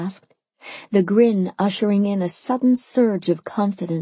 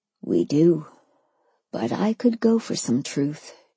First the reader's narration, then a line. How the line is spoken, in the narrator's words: he said, his voice quiet